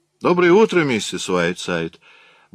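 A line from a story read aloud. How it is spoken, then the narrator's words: Cheerful greeting. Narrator (Russian): бодро поздоровался он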